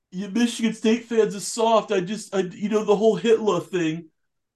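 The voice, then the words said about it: Imitates another person's voice. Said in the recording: “your impression, you know who Marty Mush sounds like?”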